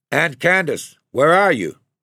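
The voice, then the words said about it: Loud calling voice. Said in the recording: “he called out in a loud voice”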